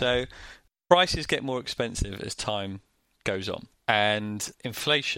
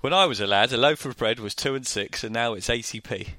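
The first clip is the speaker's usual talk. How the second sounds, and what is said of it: Put-on northern English accent. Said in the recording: “I don't know why I've still got this northern accent... Not in that accent”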